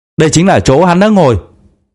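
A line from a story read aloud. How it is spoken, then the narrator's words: Frightened boy shouting loudly. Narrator (Vietnamese): Sắc mặt cậu bé bỗng tái mét, hét lớn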